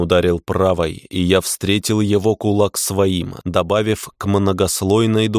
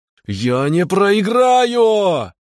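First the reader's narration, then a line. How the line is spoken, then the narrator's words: Angry shout. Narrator (Russian): кричал гнев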